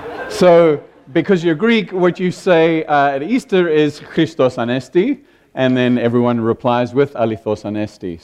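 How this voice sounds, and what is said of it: South African accent. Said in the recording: “I'm South African by accent.”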